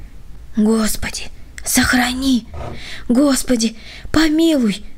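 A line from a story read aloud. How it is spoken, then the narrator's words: Frightened whispered prayer. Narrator (Russian): шептали бледные губы Володи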